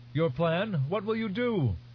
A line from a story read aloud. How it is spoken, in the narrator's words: Questions were shouted at her from many places